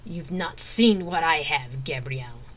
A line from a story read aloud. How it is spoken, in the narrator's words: Melissa growled